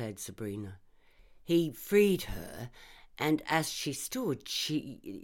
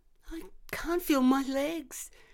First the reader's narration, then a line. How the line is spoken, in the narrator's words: whimpered